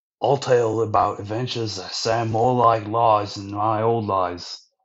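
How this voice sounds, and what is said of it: Put-on Australian accent. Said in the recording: “my Australian accent”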